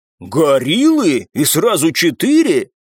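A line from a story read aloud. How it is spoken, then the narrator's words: Delighted exclamation. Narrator (Russian): вновь обрадованно воскликнул Копов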